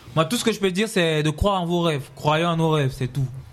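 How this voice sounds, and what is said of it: Cameroonian French accent. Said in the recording (French): “avec l'accent camerounais.”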